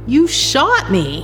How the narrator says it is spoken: yell

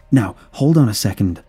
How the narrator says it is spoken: I exclaimed, seeing where it was heading

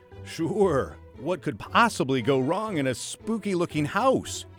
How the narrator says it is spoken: said in a shaky voice

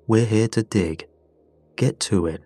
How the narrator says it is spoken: he told us flatly

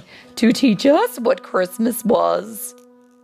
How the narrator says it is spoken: laughed Naughty

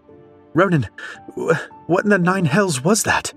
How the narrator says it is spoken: She stammered

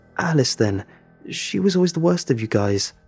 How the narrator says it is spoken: I stutter

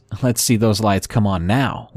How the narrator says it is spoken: with a chuckle

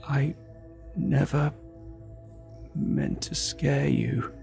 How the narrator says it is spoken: rasped, his voice torn and ragged, struggling to emerge between shallow breaths

